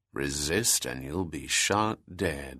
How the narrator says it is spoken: he said in a low but forbidding tone

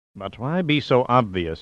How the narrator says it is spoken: Yoshishu said quietly

